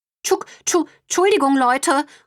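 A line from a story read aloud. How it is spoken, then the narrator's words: Calling after. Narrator (German): ruft Brownie ihnen hinterher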